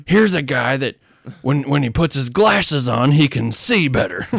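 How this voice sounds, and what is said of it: Imitates another person's voice. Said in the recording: “John Madden ... Did you ever hear Frank Caliendo's impersonation?”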